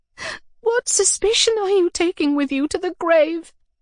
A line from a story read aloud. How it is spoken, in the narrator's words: I exclaimed to myself, sobbing